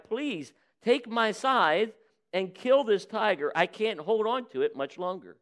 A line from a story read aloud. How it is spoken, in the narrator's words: cried